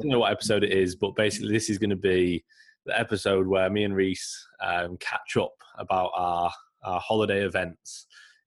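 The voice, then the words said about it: Croaky, slightly weird voice. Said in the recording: “my voice is a little bit croaky or a bit weird. I'm uh, I'm just so ill ... you actually sound, sound a bit”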